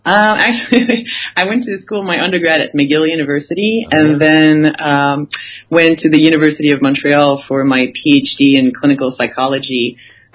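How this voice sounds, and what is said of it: Slight French-Canadian accent. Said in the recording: “a slight accent, it's my French-Canadian accent”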